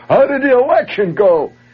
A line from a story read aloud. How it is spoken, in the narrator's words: Hollering out at this group of people